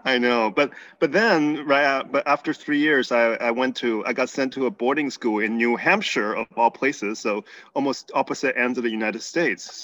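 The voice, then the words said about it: Slight Texas accent, mixed accent. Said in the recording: “you still have a little bit of Texas in your voice ... there's a lot going on in that accent”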